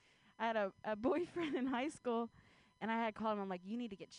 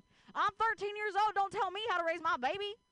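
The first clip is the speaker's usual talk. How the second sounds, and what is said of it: Put-on American country accent. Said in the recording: “can you say something to me but, like, in a country accent?”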